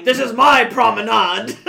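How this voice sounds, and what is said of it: Pretty good impression of Odo. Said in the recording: “That's my impression of Odo. ... It's actually pretty good, is the thing.”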